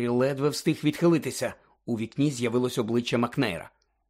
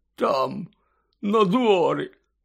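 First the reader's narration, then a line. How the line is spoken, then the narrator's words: Hoarse rasp. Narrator (Ukrainian): прохрипів Гегріт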